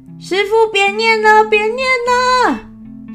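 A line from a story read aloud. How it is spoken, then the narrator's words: Shouting in pain. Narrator (Chinese): 空发现头痛是因为师父在念咒，嘴里喊着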